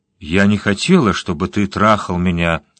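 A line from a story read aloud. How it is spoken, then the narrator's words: Calm. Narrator (Russian): спокойно проговорила она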